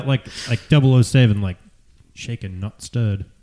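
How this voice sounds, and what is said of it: Bad British accent, James Bond. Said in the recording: “your British accent is horrible. ... I don't do good British accents.”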